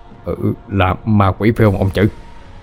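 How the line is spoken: Stammering question. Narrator (Vietnamese): Ông Trần lắp bắp hỏi

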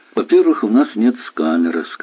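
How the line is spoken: Suspiciously calm. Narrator (Russian): сказал подозрительно спокойно

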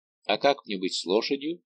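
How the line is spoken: Plain. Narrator (Russian): спросил он

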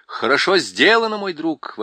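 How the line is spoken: Exclaiming. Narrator (Russian): воскликнул принц

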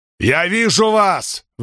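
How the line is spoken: Shouted. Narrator (Russian): выкрикнул Спартак

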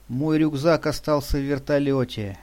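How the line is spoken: Sighing. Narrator (Russian): вздохнула Патрушева

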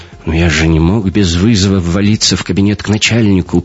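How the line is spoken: Mumbling. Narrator (Russian): промямлил шифровальщик

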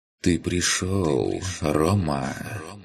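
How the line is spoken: Soft rustle inside head. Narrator (Russian): Негромко прошелестело у меня в голове

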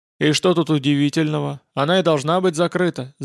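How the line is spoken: Grumbling. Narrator (Russian): заворчал я

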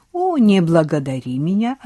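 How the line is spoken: Mocking reply. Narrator (Russian): ответил насмешливо

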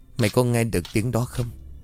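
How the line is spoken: Quiet voice. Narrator (Vietnamese): Linh nhỏ giọng

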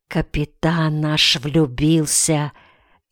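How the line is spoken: Whispered. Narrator (Russian): шепнул Акай Ринтону

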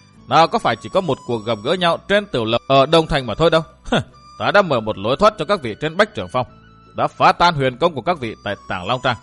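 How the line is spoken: Laughing loudly. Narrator (Vietnamese): Độc Cô Thanh Tùng cười lớn nói

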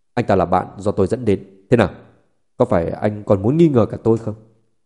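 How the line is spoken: Cold, angry. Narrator (Vietnamese): Sắc mặt Tô San lạnh lùng, tức giận nói

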